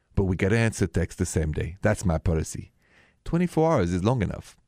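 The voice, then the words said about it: Warm-sounding foreign accent. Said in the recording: “it's so nice to hear your accent because it's so warming”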